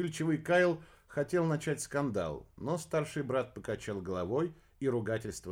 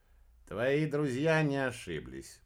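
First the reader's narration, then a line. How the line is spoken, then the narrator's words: Grumbling. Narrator (Russian): проворчал Кеннет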